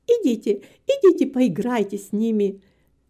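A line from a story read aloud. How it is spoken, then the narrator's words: Laughing. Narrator (Russian): засмеялась Нета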